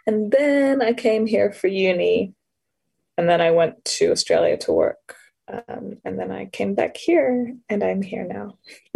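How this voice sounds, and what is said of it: American accent. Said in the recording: “that's why I sound like this, because it was American and I haven't shaken the accent.”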